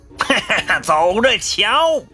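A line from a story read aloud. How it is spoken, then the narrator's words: Loud laughter. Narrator (Chinese): 猪鼻子哈哈哈的大笑三声，说道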